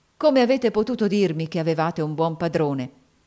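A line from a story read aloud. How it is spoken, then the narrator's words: Exclaimed. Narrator (Italian): esclamò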